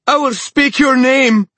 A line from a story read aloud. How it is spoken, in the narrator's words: she shrieked at the king